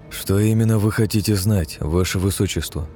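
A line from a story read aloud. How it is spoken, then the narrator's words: Calm inquiry. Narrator (Russian): спокойно осведомился я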